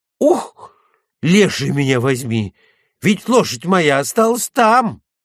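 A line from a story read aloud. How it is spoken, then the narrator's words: Frightened exclamation. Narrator (Russian): Испуганно он воскликнул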